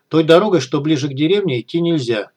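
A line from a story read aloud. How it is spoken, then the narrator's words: Plain. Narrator (Russian): сказала внучка лесника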